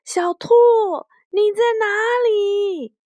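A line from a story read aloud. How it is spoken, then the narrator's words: Loud shout. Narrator (Chinese): 大声的喊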